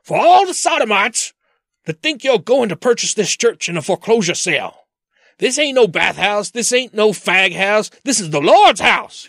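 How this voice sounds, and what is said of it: Impression of preacher Manning. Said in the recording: “You do have a good impression of him, though. Yeah, it wasn't bad. Yeah, it was pretty good.”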